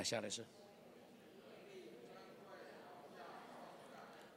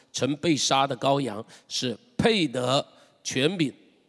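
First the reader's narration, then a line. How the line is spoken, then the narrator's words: Many angels, loud. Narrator (Chinese): 许多天使的声音，他们的数目有千千万万，大声说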